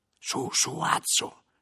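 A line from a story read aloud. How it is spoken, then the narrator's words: Whispered. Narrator (Italian): mi sussurrava Guglielmo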